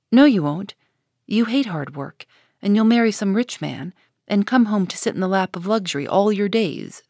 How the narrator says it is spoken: said Jo

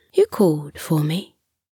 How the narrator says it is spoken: The fairy said softly

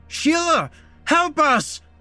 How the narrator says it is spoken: Matt screamed out as cold, disgusting water poured into his mouth

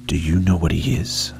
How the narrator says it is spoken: it whispered in a rattling voice as dry and soft as autumn leaves

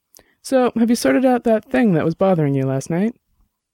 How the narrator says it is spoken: Annabelle kept her voice light, but Dex knew she was concerned

